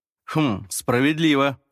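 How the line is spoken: Reply with deep sigh. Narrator (Russian): ответил Ларри и глубоко вздохнул

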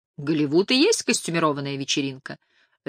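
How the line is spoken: Cheerful reply. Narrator (Russian): весело ответил Нейл

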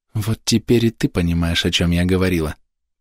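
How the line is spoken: Whisper. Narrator (Russian): прошептала она

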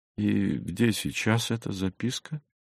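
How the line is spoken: Quiet, guileless smiling question. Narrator (Russian): спросил он тихо, с простодушной улыбкой

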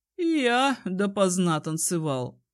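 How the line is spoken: Snorting hum. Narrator (Russian): хмыкнул Этрейн

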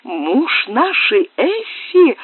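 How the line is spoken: Exclaimed. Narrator (Russian): воскликнула Клара

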